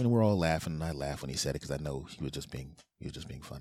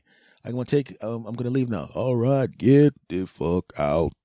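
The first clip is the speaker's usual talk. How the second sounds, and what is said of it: Imitates another person's voice. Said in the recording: “That was the voice... doing his voice, his voice... my impression of him is pretty good... You sound just like him.”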